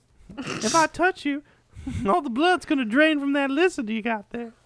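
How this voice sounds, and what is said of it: Put-on Louisiana accent. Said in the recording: “How's your Louisiana accent”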